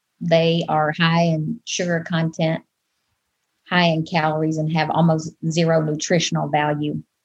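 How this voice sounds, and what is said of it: Southern US accent. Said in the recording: “you can probably tell from my accent that I'm not from here. I'm originally from the Deep South, from Arkansas”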